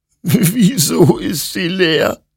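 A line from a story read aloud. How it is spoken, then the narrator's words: Sobbing. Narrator (German): schluchzte Hektor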